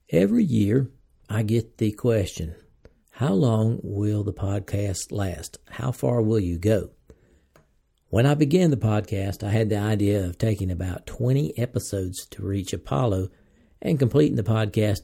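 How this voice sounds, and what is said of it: American Southern accent. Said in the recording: “an American speaking English with a southern accent”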